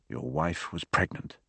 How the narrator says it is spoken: said Gamache, his voice quiet, unnaturally calm

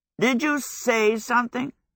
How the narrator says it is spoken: Hal croaked

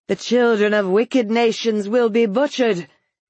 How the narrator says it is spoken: she said in a loud voice

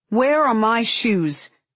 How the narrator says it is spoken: She asks loudly

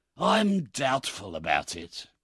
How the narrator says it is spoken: replied Fagin with a sigh

